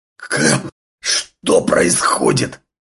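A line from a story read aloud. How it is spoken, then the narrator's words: Hoarse wheezing. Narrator (Russian): хрипел он по-русски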